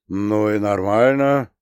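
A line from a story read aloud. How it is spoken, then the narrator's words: Good-natured rumbling. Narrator (Russian): благодушно прогудел Смирнов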